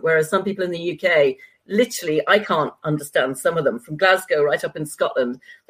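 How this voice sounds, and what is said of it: Traditional British accent. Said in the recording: “you got a great UK accent ... great British accent ... I have what is known as the traditional British accent, or some people refer to it as the BBC English accent ... I don't have a regional accent”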